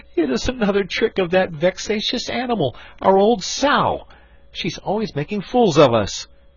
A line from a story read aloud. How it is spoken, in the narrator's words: cried he